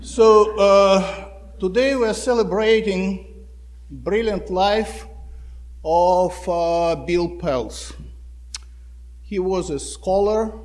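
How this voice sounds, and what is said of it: Russian accent. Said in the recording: “You can get from my accent, from my strange last name, that I was not born in the United States. I was born in Russia”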